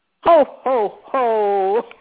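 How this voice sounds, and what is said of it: Santa Claus impression. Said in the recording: “I was just impersonating Santa Claus”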